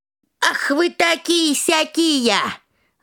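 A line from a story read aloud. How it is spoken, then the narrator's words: Old woman shouting. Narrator (Russian): закричала старуха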